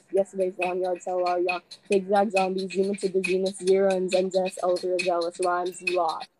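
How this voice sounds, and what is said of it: Rapid rap, running out of breath. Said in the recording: “I was running out of breath.”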